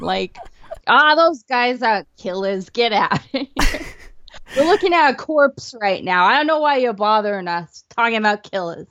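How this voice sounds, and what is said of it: New York accent. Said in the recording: “that was my New York accent ... That was pretty great, actually. I felt like I was in Times Square in 1978”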